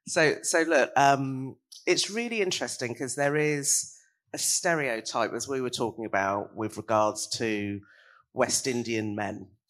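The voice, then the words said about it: Very deep voice, hoarse from cold. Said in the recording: “sounding a bit like Barry White. I am literally just recovering from a cold. ... my voice is normally deep, but I think it's gone about 10 octaves deeper since I've had this cold”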